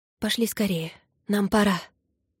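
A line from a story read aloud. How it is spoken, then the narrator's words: Whispered. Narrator (Russian): прошептала Зора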